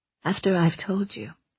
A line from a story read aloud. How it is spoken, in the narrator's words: she said softly